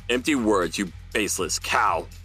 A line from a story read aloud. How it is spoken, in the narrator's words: Weatherman roared